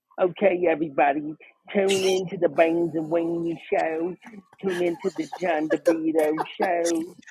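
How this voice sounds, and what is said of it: Imitates another person's voice. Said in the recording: “Eric loves my impression of him, of Eric. ... That was actually pretty good.”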